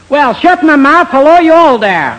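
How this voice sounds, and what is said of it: Put-on American Southern accent. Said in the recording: “It's a certain accent ... Oh, you're from the South?”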